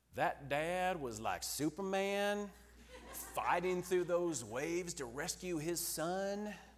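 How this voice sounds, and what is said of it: Thick Southern US accent impression. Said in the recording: “with a thick southern accent ... just imitate her”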